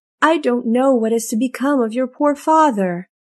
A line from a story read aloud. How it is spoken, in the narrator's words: groaned Midas